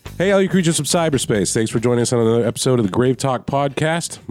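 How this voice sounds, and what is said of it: Voice sounds sick. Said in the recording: “I'm sure you can hear it in my voice, but I'm getting over some crud. That's the official Southern term for being sick.”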